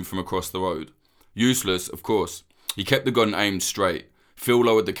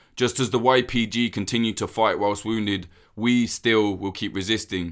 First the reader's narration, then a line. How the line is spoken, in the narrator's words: said